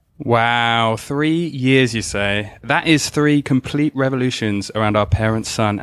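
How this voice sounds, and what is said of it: British accent. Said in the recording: “this wonderful accent ... our token Brit”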